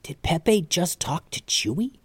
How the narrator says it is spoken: Calvin whispered to Mallory

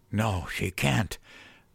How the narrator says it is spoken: I wheezed

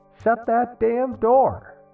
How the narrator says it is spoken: yell, even while asleep

